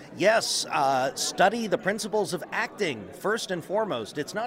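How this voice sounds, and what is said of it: Usual voice. Nothing is said of it.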